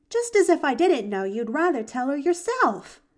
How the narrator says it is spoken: she called back merrily over her shoulder

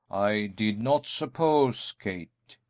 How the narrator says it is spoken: he said slowly, for he could not bring himself to speak harshly to her

